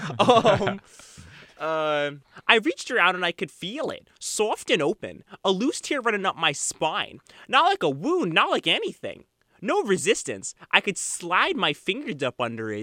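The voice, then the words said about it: Put-on Long Island accent. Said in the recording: “do a Long Island accent ... I'm a fake Long Islander”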